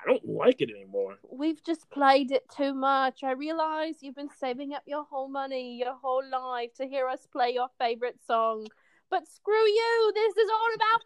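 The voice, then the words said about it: Imitates a British rock singer. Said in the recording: “I like your Radiohead accent. ... That's my uh, Thom Yorke voice.”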